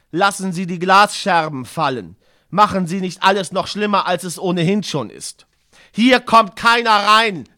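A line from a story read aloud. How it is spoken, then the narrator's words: Plain. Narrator (German): sagte ich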